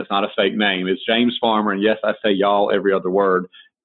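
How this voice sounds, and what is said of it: Southern American accent. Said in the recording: “from the South ... I don't talk like this for fun ... this isn't a fake accent”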